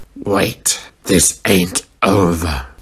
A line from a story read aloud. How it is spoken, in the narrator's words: Safety growled